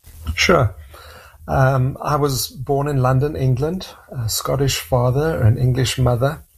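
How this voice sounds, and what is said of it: South African accent. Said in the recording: “your accent is not what we would consider Canadian ... South Africa, and that's my accent”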